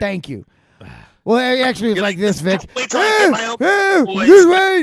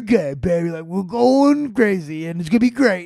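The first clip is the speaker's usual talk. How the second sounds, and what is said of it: Imitates another person's voice. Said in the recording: “that is a fairly accurate impression”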